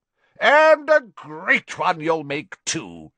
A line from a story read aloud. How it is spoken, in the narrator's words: boomed Slughorn